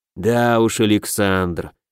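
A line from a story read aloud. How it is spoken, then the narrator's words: Disappointed drawl. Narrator (Russian): с разочарованием протянул Деннебери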